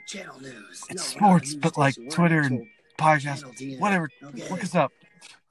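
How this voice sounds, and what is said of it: Whispering. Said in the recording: “why are you all whispering?”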